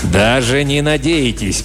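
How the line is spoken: Booming. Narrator (Russian): прогремел он

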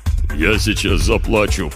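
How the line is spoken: Deep bass voice. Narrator (Russian): пробасил Гох

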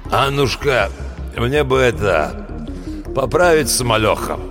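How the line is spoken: Wheezing. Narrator (Russian): просипел официантки

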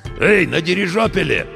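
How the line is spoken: Hoarse radio voice. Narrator (Russian): откликнулась рация все тем же хриплым голосом

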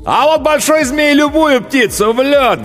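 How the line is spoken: Loudest shouting cowboy. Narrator (Russian): громче всех кричал ковбой

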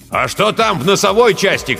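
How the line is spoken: Shouted. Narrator (Russian): крикнул Жерилло

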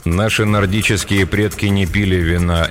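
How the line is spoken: Even, level voice. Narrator (Russian): ровным голосом проговорил Петр

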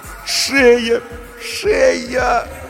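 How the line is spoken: Moaning. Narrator (Russian): стонала Галина Сергеевна

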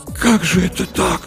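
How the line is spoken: Whisper. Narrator (Russian): прошептал Артамонов

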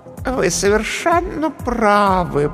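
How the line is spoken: Cooing. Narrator (Russian): проворковала комедия

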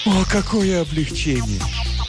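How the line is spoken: Deep sigh. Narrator (Russian): Кирна глубоко вздохнула

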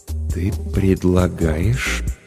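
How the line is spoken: Hesitant, tentative. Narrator (Russian): начал Денис неуверенно, словно пробуя слова на вкус

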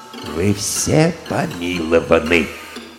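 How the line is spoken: Timid quiet murmur. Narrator (Russian): король, обратившись к арестованным, нагнувшись и робко озираясь кругом, тихонько проговорил

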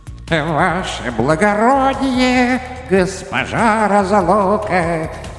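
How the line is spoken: Sing-song greeting. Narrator (Russian): нараспев приветствовала старую приятельницу беда

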